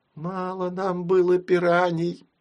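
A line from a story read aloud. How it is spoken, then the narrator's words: Moaning. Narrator (Russian): простонала мама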